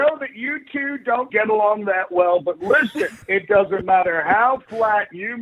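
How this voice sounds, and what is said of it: Usual voice. Nothing is said of it.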